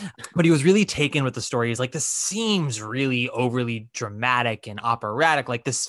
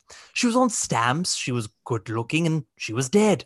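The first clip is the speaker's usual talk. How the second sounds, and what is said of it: Put-on English accent. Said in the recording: “let me do that in an English accent.”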